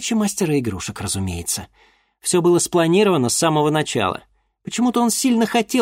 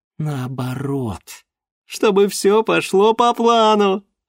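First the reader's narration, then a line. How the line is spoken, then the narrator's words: Laughing. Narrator (Russian): рассмеялась Гульнара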